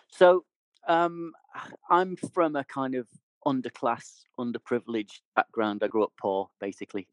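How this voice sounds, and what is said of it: Regional accent. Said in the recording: “I'm the only person I work with who's got a regional accent”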